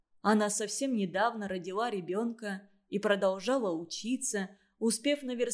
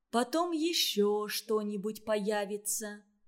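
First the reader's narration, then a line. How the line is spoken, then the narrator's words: Quiet, even voice. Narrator (Russian): сказала Варя тихим, ровным голосом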